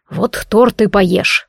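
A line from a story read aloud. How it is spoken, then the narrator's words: Growl. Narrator (Russian): рыкнул некромант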